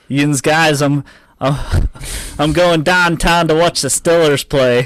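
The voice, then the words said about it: Put-on Pittsburgh Yinzer accent. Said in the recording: “spit a few Yinzer phrases for us. In your best Yinzer accent ... Yin's impressions are of his Yinzer accent”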